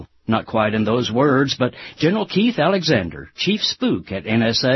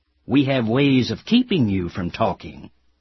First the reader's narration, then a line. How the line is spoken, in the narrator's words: the director of our national security agency hisses at journalists